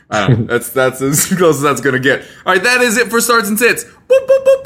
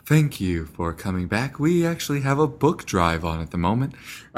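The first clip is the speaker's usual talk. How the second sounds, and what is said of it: Slow, deep NPR-host radio voice. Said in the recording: “NPR host impersonation. I always just go to the deep voice ... just slow down your voice and deepen it”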